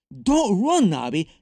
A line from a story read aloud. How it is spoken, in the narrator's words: Nick pleaded